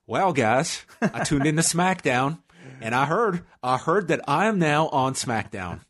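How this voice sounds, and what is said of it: Good Southern-accented impression. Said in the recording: “Your AJ is really good. ... Your AJ is as good as the other Southern accent you tried to do recently”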